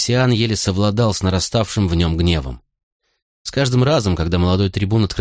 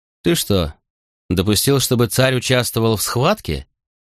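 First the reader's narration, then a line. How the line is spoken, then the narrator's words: Icy inquiry. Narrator (Russian): осведомился Веспасиан ледяным тоном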